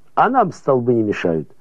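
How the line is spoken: Dismissive laughing. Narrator (Russian): отмахнулся Кильдикс и засмеялся

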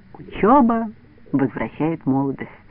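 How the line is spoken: Quiet, to herself. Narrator (Russian): тихо говорила про себя

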